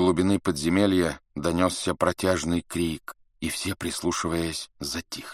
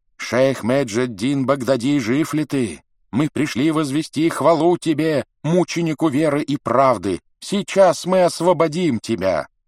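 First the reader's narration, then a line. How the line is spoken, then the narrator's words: Shouting crowd. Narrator (Russian): кричали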